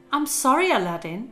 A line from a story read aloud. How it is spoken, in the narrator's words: she answered